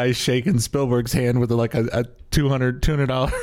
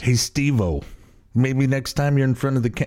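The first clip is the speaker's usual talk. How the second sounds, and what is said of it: Crappy put-on New York accent. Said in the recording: “I don't know why I'm using a New York accent or a crappy New York accent.”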